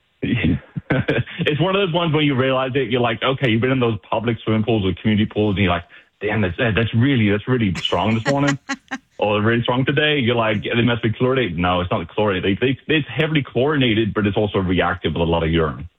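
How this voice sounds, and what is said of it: British accent. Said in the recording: “where is your accent from? ... UK.”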